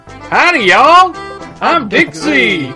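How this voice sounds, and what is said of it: Cheesy put-on Southern American accent. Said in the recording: “a really cheesy Southern accent”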